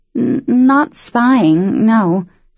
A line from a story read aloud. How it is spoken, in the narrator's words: she stammered